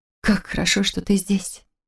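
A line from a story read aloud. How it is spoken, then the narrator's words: Breathy, muffled against neck. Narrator (Russian): Выдохнула в изгиб его шеи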